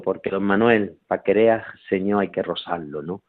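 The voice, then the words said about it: Put-on Sevillian Andalusian accent. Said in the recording (Spanish): “en ese acento andaluz, ¿no? Sevillano”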